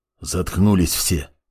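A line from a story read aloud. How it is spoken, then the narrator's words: Quiet command. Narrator (Russian): тихо скомандовал Канунг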